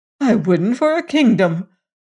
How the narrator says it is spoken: cried Elfin

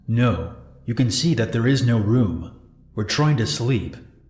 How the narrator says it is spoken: the girl, though she kinda looked timid, she sorta yelled at him

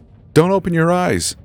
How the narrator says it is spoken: shouted

